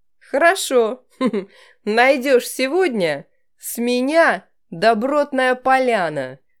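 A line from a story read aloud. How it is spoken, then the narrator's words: Laughing. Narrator (Russian): рассмеялся Александр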